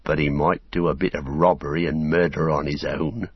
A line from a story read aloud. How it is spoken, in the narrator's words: growled Sam